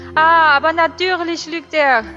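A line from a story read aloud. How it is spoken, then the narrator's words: Calling out. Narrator (German): rief Madame Maxime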